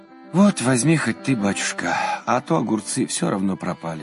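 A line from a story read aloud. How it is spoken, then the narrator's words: Sighing. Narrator (Russian): вздохнула она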